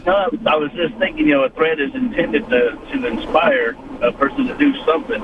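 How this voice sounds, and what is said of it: Kentucky accent. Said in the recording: “I think the Kentucky accent was throwing her off on the phone.”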